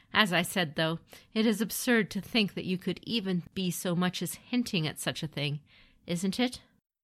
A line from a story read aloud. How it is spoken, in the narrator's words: Kachiko laughed